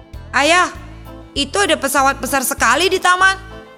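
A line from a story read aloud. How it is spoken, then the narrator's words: Sudden shout. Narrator (Indonesian): teriak Rio tiba-tiba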